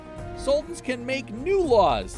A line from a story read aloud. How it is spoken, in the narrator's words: he said happily